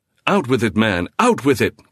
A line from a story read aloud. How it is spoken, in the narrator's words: Cathcart cried, terror running neck and neck with entreaty